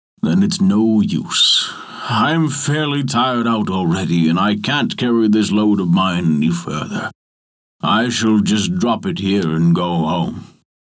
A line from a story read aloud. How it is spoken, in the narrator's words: said the giant, with a great groan